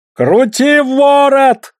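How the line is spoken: Roared. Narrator (Russian): взревел Сласть

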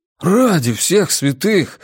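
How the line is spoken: Breathless exhale. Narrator (Russian): выдохнул Джеспер

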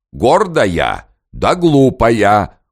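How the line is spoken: Loud wanderer. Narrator (Russian): громко сказал у ней за спиной странник

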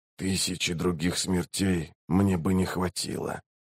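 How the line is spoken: Very quiet whisper. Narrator (Russian): прошептал он так тихо, что услышали только Рейк и Барук

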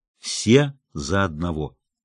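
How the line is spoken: Solemn tone. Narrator (Russian): торжественным тоном произнесла

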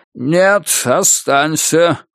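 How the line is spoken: Exclaiming. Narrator (Russian): воскликнул он

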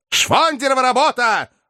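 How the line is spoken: Shouting. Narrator (Russian): кричал Филипп Филиппович

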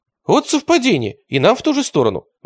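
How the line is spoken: Exclaimed. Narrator (Russian): воскликнул атаман

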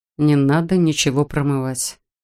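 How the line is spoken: Weary, dismissive. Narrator (Russian): устало отмахнулся Адам

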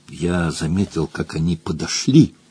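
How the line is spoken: Whisper. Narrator (Russian): прошептал он

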